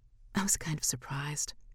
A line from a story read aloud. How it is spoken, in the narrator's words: confesses, nervously breaking the comfortable lull